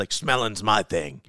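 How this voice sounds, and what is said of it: Gravelly character voice impression. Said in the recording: “That was a really good impression. You had the gravel perfectly right there.”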